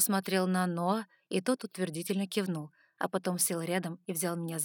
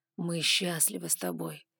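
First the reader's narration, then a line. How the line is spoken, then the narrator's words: Slightly muffled. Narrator (Russian): голос ледяного дракона прозвучал немного глухо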